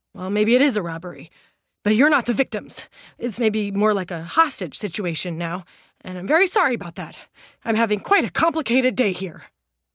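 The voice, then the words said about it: Breathless voice. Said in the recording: “in a breathless voice”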